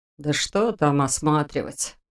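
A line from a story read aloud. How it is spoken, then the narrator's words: Dismissive snort. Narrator (Russian): хмыкнул Дементьев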